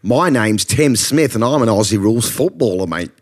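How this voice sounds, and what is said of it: Put-on Australian accent, patchy. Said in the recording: “How Good Is Your Aussie Accent? ... There were some good moments in there. ... There were some highlights.”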